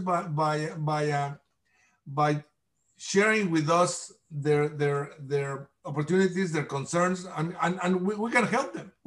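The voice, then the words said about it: Non-native English accent. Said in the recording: “my accent”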